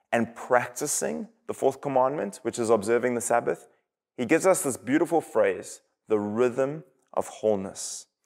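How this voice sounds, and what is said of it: South African English accent. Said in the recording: “you can probably tell from my accent that I am not from America... I am from South Africa”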